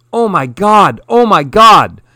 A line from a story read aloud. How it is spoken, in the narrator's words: the humans yelled as they ran